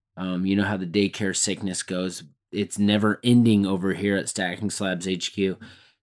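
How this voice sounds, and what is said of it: Voice affected by a cold. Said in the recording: “I'm struggling a little bit. I got a cold. ... I've got a little bit of a cold going on over here ... I'm fighting this cold”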